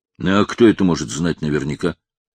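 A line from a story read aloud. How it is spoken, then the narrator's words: Gloomy objection. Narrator (Russian): мрачно возразил Сэм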